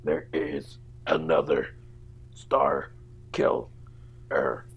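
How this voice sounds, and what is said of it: Imitates a movie character's voice. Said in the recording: “You're just on it with the impersonations today.”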